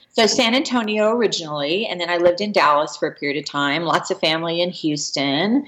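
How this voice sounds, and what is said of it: Texan accent. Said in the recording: “I didn't realize you're from Texas... I heard your accent.”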